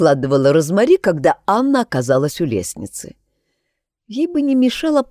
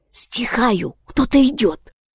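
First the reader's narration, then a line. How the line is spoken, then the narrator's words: Young woman whispering. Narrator (Russian): зашептала девушка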